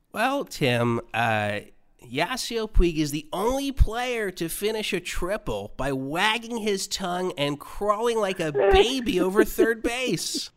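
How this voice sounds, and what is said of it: Imitates another person's voice. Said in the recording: “the impersonation that I do of you ... That was really bad”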